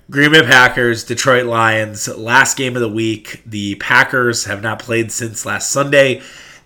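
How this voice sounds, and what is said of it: Nasal, congested voice. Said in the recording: “my voice may sound a little nasally”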